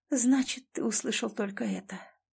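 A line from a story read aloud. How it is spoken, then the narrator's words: Whisper. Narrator (Russian): прошептала она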